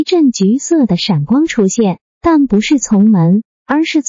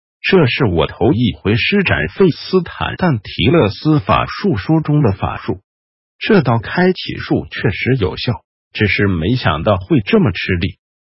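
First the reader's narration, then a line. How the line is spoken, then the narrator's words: Low voice. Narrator (Chinese): 雷斯林低声说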